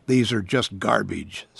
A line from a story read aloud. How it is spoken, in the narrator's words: said another